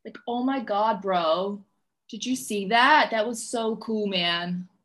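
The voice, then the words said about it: Put-on LA surfer accent. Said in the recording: “That's like my LA accent, I think. I feel like a surfy guy when I do that.”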